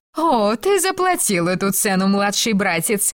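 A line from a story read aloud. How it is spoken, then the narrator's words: Sister laughing. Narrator (Russian): рассмеялась сестра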